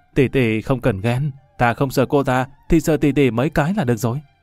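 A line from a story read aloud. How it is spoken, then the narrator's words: Cheerful. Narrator (Vietnamese): Lâm Văn Vinh hớn hở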